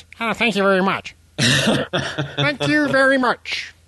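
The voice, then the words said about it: Kermit the Frog-like imitated voice. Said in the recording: “The Kermit the Frog thing ... best Newt Gingrich impression”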